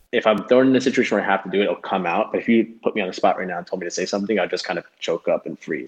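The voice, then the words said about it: Westernized American accent. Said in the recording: “I have a very like westernized American accent.”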